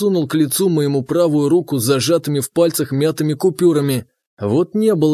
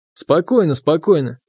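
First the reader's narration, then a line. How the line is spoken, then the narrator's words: Very even, calm. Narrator (Russian): проговорил я очень ровным тоном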